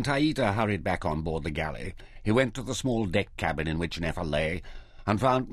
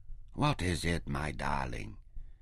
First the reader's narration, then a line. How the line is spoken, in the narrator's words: asked her gently